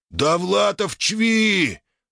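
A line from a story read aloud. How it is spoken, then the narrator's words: Orc yelling, interrupting. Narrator (Russian): заорал знакомый орк из толпы, перебив директора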